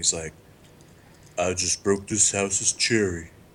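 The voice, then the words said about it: Imitates another person's voice. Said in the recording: “my Ving Rhames impression”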